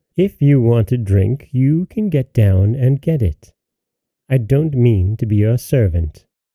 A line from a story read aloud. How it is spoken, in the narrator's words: the waiting maid replied, even more haughtily than before